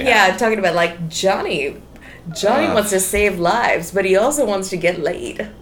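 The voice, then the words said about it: Creepy pitching voice. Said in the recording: “that's the way you pitch. That's your voice. ... that's my pitch voice. ... It's a creepy voice.”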